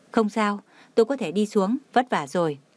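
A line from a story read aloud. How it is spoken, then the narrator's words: Smiling. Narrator (Vietnamese): Tưởng Thiên Lỗi mỉm cười nói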